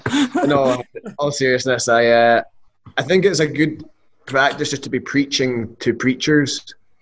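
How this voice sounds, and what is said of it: Speaker's own noticeable accent. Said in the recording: “making sure people understand my accent”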